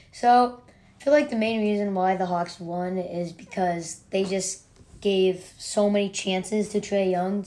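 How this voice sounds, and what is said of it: Strained, worn-out voice. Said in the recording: “my voice is shot up and yelling a lot today”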